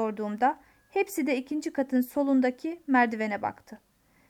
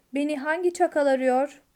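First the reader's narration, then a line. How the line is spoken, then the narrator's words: Insolent voice. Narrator (Turkish): dedi küstah bir sesle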